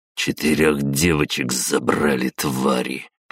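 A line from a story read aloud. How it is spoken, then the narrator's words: Through gritted teeth. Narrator (Russian): процедил сквозь зубы барон Приобский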